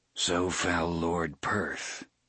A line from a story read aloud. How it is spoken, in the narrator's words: murmured Roland